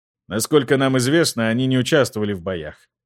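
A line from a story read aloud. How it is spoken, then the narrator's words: Plain. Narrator (Russian): ответил Жак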